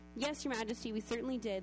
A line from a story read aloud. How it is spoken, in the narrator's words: they replied